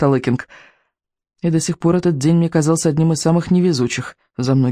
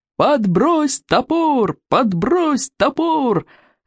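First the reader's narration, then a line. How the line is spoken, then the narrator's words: Cheerful yelling. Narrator (Russian): весело вопили стероиды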